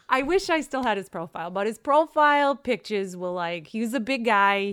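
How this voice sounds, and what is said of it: New York accent. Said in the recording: “your New York voice ... That's not a voice. That's my actual accent.”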